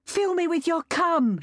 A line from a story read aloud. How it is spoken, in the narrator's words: shouted